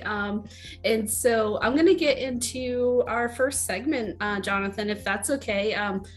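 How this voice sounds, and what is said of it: Hoarse, fading voice. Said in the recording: “I am losing my voice a little bit. So if I go in and out throughout our episode”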